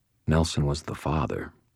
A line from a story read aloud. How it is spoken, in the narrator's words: I said quietly